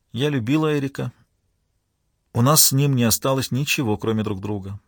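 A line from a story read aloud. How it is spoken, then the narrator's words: Calm. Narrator (Russian): спокойно продолжала она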